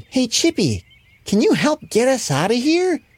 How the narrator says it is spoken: squeaked

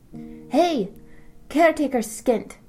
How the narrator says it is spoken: Marjorie yelled from across the dry grass

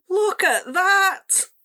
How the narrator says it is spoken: Salty cried

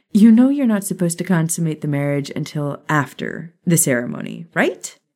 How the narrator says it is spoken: Maya chuckled

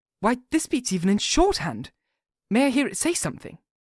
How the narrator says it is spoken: I felt quite excited over it and blurted out

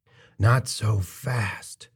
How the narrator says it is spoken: Lingman murmured

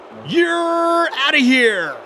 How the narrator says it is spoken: the umpire bellowed

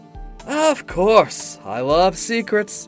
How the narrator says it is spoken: I said sarcastically

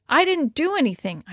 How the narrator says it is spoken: I exclaimed

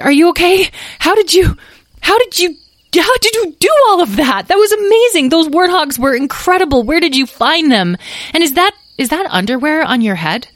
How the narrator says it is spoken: Talora exclaimed

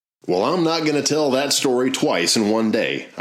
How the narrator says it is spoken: I replied

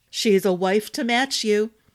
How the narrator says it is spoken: Baithen said with a badly repressed chuckle

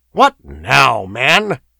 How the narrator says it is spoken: exclaimed Demetrio irritably

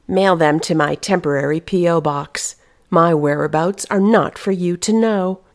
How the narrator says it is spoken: she had informed him coldly

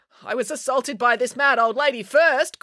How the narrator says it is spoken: cried April

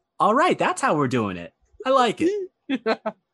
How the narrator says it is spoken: she lets out a light laugh actually at that, and goes

